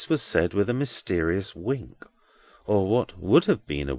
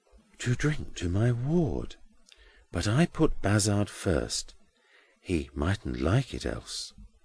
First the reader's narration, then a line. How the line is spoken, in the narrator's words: Grewgious, bending aside under cover of the other to whisper to Edwin